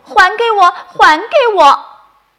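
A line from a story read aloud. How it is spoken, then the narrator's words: Shouting while chasing. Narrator (Chinese): 豆豆追着喊着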